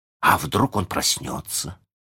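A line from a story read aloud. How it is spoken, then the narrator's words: Suddenly hoarse voice. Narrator (Russian): спросил Джон внезапно севшим голосом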